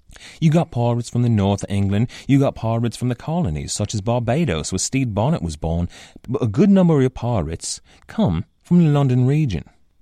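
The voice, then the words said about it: Rough imitation of an English accent. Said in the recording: “the accent that I am most certainly butchering right now. This accent is an approximation, a bad imitation, really”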